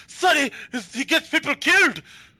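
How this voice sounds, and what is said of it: Scottish accent, Craig Ferguson impression. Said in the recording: “I did a Scottish accent... I did Craig Ferguson instead of Ego.”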